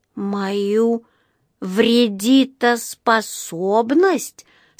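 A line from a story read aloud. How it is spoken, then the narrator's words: Disappointed drawl. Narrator (Russian): с огорченным видом протянул Паддингтон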